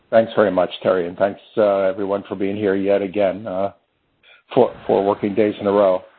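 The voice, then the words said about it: Worn-out, strained voice. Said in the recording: “this is the last time you'll hear my voice for at least a week. So my voice is about done”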